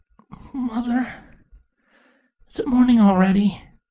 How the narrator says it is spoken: Twilight sleepily asked

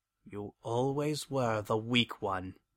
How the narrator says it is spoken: I muttered

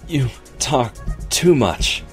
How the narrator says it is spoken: she panted between heady kisses

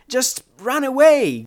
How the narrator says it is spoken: Glory screamed down at him

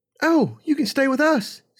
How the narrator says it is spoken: Serenity chirped in

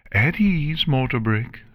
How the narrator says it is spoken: Luna called out

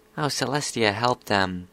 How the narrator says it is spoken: Scootaloo muttered

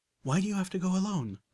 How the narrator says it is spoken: Velvet Remedy asked, almost pleading

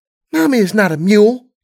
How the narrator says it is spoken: Serenity said indignantly

